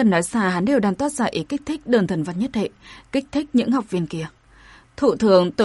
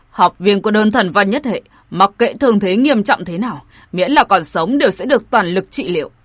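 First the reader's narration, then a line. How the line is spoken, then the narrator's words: Loud shout. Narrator (Vietnamese): Ông liền lớn tiếng quát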